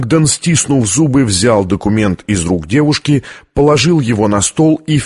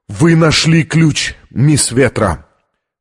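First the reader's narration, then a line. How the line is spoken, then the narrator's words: Shaky gasping breath. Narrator (Russian): Он судорожно вздохнул и произнес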